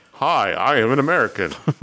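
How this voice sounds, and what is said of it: Put-on American accent. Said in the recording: “they do some bad American accents... You sounded very American there.”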